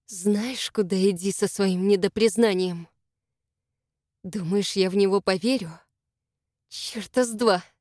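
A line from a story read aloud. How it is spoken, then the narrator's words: Hissed. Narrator (Russian): я прошипела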